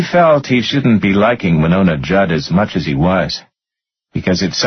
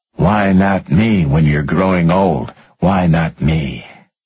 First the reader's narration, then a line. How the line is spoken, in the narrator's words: He started singing along with it, his rough bass rumble underneath the soaring contralto